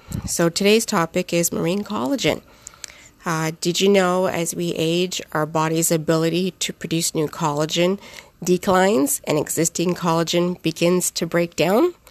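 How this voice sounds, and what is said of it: Hoarse voice. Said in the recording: “I apologize for my hoarse voice. I'm just getting over the flu”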